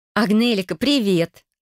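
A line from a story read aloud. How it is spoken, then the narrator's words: Cheerful young woman's greeting. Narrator (Russian): радостно поздоровалась девица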